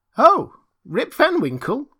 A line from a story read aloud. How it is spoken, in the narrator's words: exclaimed two or three